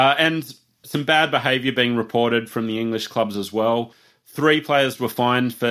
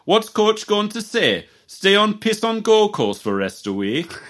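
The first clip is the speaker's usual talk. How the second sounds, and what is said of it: Put-on Yorkshire accent. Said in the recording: “I'll try to do my best Yorkshire accent ... comment on that accent, please. I thought it was quite good.”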